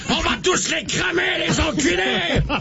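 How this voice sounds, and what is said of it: Shouted put-on French accent. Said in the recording (French): “qu'il lâche des cris de mort avec un accent français”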